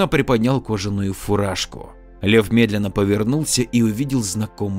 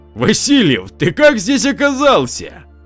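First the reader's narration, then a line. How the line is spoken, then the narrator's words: Joyful shout. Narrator (Russian): радостно закричал комиссар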